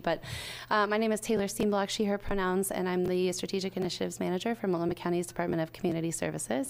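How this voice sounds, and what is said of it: Slightly scratchy voice. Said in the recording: “I'm recovering from a cold, so my voice might be just a little bit scratchy.”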